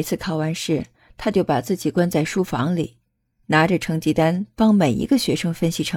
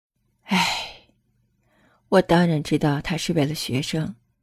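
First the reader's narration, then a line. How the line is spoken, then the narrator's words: Long sigh. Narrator (Chinese): 师娘长叹口气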